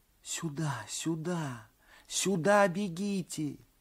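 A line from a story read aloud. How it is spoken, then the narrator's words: Whisper. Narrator (Russian): шептали губы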